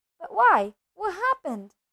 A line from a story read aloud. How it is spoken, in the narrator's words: Harry asked urgently